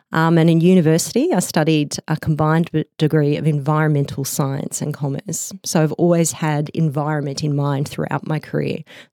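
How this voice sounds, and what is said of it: Australian accent. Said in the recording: “as my accent suggests, I'm from Australia”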